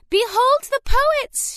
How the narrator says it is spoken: she cried

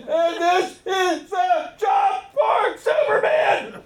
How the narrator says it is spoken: he cried

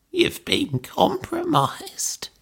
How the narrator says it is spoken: croaked

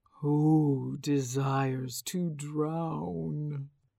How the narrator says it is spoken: asked the dragon spirit in a low, resonant voice

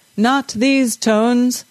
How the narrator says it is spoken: the bass singer bellowed

